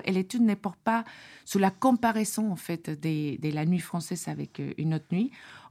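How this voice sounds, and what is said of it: Strong foreign accent in French. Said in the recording (French): “cet énorme accent”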